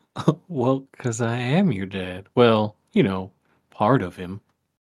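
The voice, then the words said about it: Folksy fatherly character voice. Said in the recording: “do you sound like my dad? ... you're doing that freaking folksy voice”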